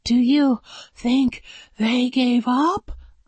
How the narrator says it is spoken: panted

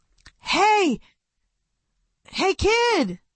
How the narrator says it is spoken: Marcus yelled

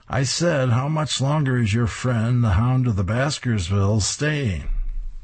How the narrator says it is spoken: She screams to Grimm

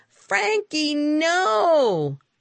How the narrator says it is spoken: I shouted

